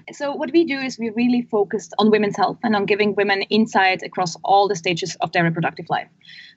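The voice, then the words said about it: Swiss accent in English. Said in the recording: “We're originally from Switzerland, which you can probably hear from my accent in this call.”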